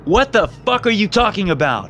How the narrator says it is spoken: I yelled

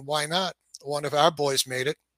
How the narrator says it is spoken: The rabbi says quietly

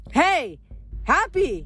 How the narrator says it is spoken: yelled

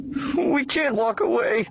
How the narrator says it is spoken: the guard moaned

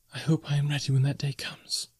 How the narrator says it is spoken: she whispered

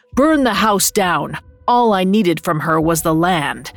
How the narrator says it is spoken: The Spaniard's voice sounded hollow and distant as he barked at his men

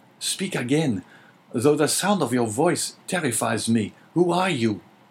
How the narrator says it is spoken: cried Dante

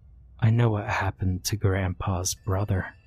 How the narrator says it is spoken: whisper in her ear

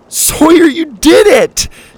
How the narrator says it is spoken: Suzie laughed

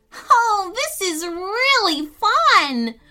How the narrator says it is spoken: Fran yelled, laughing

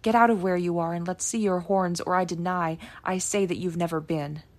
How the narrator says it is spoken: cried

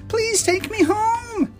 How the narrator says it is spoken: I cried

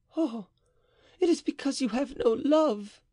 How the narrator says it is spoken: cried Mary

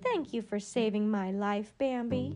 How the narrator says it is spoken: said

